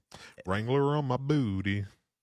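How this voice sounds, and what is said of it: Imitates another person's voice. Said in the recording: “That's actually a pretty good impression.”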